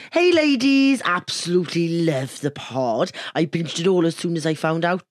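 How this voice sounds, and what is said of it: Put-on Welsh accent. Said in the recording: “I could do my Welsh accent ... I'm about to do your accent”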